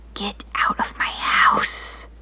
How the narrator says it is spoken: hissed

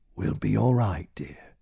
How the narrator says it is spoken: He took her hand and whispered

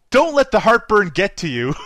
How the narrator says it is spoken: yells

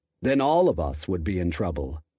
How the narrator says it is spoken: Cochran told the reporters gravely

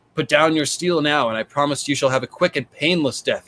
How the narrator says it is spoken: Rob called out

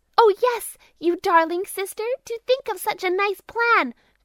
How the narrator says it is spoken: cried the other two

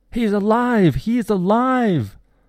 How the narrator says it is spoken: Ada yelling outside my window

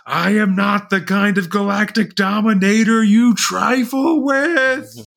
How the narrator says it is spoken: The howler shouts

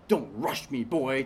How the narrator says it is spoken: Titus snapped

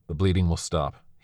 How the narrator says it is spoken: said coldly

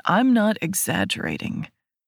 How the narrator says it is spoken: he says in a serious tone

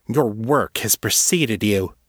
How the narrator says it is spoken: she snarled

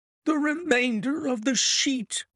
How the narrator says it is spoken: cried the inspector

